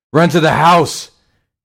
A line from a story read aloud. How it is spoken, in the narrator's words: he screamed